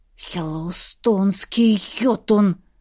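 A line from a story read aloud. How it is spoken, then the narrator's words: Breathed out. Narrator (Russian): выдохнул он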